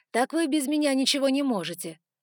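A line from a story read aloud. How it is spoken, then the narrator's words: Snort. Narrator (Russian): хмыкнул он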